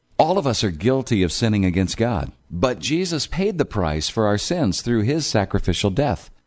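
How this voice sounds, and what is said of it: Polished broadcast-style radio voice. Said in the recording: “That guy has a great radio voice.”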